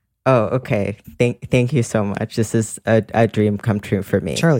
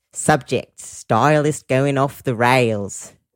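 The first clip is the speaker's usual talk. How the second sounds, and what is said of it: Put-on Australian accent. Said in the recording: “read one of these in an Australian accent ... Please read it in an Australian accent”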